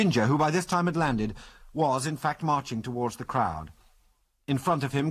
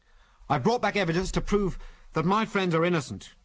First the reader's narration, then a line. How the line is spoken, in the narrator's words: cried Ginger